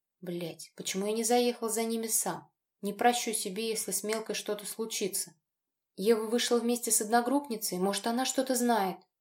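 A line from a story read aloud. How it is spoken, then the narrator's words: Trembling voice. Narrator (Russian): дрожащим голосом проговорила Тоня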